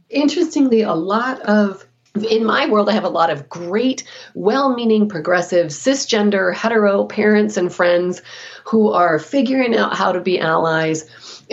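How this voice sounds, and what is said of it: Emotional, audibly moved voice. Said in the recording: “you can hear the emotion in my voice.”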